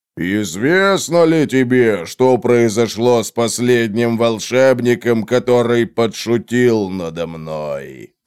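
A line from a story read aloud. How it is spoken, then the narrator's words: Menacing. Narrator (Russian): спросил Грум угрожающим голосом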